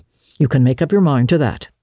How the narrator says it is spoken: she said firmly

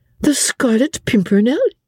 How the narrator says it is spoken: said Suzanne, with a merry laugh

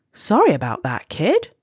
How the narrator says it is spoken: said the astronaut

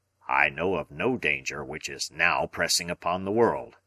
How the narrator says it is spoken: Challenger answered gruffly

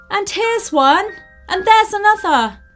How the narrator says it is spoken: all exclaimed

